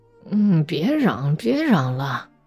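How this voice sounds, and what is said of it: Sleepy, quiet murmur. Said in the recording (Chinese): “半睡半醒的小声说着”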